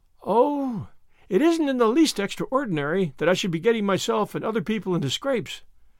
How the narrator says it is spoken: said Anne mournfully

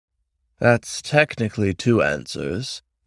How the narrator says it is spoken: the raven replied coolly

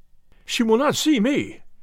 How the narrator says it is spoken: cried Ferguson

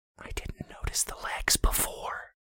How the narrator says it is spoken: Brandy whispered

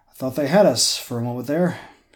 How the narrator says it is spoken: said breathlessly

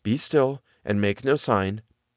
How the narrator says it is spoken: Prudence whispered

